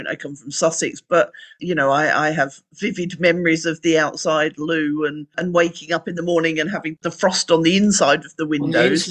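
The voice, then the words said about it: Southern English accent. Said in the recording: “as you can probably tell from my accent, I grew up down south”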